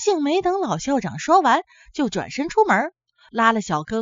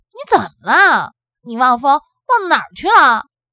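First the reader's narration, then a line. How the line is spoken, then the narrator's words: Angry. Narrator (Chinese): 阿信拉着小庚跑了老远，才恼怒地说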